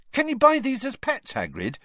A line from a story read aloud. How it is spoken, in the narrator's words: he asked excitedly